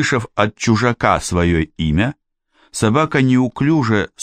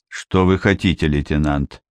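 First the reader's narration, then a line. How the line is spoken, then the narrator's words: Dry question. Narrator (Russian): сухо спросил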